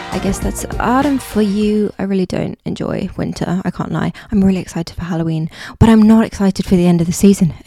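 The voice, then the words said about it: Hoarse, fading voice. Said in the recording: “my voice is going.”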